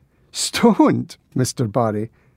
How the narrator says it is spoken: laughed

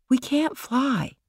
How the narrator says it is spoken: Michael said quietly

